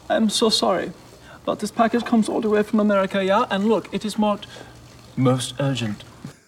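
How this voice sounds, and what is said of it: Weird put-on German accent. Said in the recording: “his weird German accent ... he still just sounds like Sean Spencer pretending”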